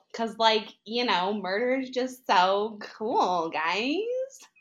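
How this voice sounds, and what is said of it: Valley girl accent. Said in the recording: “what my dad refers to this accent as, a valley girl.”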